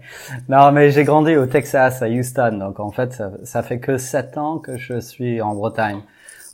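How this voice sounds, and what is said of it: French with an American accent. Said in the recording (French): “d'où te vient cet accent magnifique ... c'est pas l'accent breton ... voilà pourquoi l'accent”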